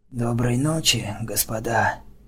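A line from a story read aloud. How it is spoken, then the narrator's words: Hoarse voice. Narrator (Russian): хриплым голосом произнес он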